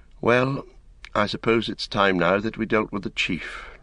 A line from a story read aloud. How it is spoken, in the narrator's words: Frodo said with a sigh